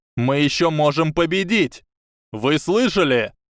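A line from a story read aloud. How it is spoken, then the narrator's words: Yelling. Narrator (Russian): заорал Дин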